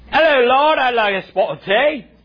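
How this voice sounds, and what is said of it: Poor put-on English accent. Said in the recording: “I don't even know if that's an English accent ... that is terrible. That doesn't sound like us.”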